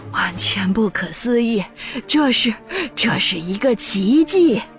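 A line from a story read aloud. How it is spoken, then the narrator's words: Breathless old man. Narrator (Chinese): 约瑟夫爷爷喘着气说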